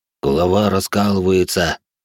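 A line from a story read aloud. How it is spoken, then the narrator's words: Deep bass voice. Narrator (Russian): пробасил он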